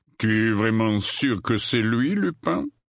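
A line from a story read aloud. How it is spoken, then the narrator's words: Growl. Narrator (French): gronda-t-il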